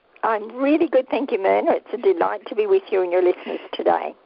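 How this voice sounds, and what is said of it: Deep Australian accent. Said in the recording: “that deep, down-under accent. Loving it.”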